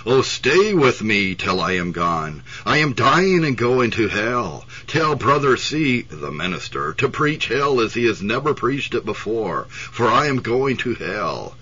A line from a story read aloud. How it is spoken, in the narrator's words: the dying woman looked at her with eyes of terror, she exclaimed